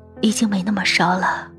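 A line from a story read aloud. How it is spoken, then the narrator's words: Low voice. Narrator (Chinese): 低声说着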